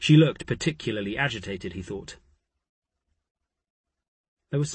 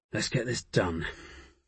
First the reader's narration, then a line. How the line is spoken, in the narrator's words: Poole said grimly